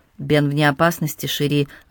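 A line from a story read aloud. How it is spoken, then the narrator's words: Calm reply. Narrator (Russian): ответил спокойно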